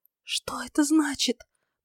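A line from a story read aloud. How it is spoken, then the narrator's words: Frightened whisper. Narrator (Russian): прошептала она, испуганно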